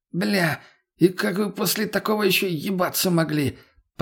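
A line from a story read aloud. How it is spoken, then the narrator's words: Hoarse rasp. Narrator (Russian): прохрипел мутный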